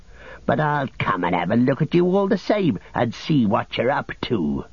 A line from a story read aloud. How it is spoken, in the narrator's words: growled Snugger